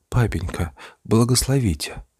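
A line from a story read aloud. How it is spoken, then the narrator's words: Shy blushing whisper. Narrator (Russian): шепотом проронила, вся зардевшись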